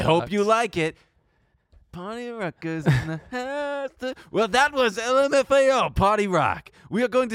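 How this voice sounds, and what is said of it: Radio DJ voice. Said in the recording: “DJ voice ... The DJ voice, man. I just did it. ... A bit of a different DJ voice.”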